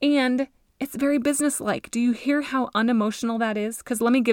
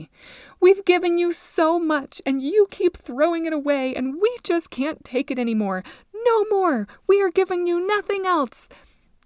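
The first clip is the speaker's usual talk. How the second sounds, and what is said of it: Emotional, scolding mom voice. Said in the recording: “Can you hear that? Like, can you hear what an emotional boundary? ... I hope that you can hear my mom voice”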